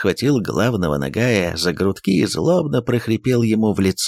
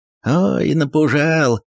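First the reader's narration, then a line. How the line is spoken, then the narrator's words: Laughing. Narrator (Russian): рассмеялся Иван Кольцо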